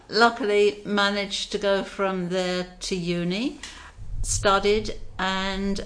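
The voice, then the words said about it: British accent. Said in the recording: “you can tell by my voice, I'm not Australian. I'm born in Britain.”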